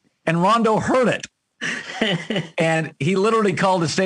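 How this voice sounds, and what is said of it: Usual voice. Nothing is said of it.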